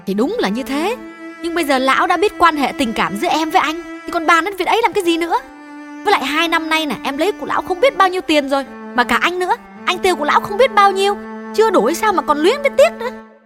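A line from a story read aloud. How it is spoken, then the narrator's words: Angry loud interruption. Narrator (Vietnamese): Hương chưa nguôi giận, lớn tiếng ngắt lời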